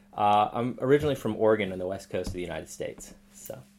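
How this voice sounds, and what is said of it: American accent. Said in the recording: “I'm hearing an accent in the voice”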